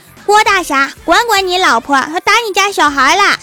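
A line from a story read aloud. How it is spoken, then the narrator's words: Shouting. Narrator (Chinese): 郭晓霞就跑到郭大侠面前喊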